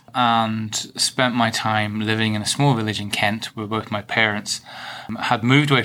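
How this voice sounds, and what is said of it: Northern Irish accent. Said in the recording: “you might be able to tell from my accent. Clearly not from Bristol, from Northern Ireland.”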